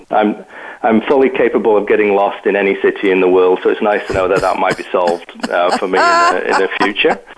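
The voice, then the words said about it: Northern English Yorkshire accent. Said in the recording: “you might pick up from my accent that actually I'm from the UK. I was born and raised in Yorkshire in Northern England in the UK.”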